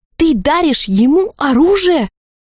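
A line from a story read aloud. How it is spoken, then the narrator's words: Almost shouting. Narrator (Russian): чуть не закричала Лалина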